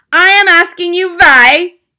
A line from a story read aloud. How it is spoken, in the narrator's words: screamed